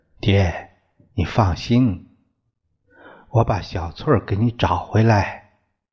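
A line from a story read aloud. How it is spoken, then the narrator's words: Soft, smiling through tears. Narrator (Chinese): 朱颖，脸上有了暗淡淡的笑，笑着也有泪水流出来 说了很笑很柔一句话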